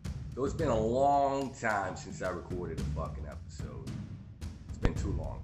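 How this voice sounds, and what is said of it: Southern twang accent. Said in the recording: “that hobo with a southern twang”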